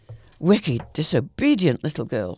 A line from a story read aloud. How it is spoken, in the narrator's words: said Aunt Beryl bitterly